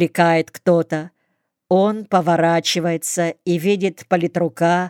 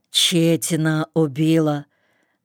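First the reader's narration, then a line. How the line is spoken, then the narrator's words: Muffled, coughing. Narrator (Russian): говорит глухо, продолжая кашлять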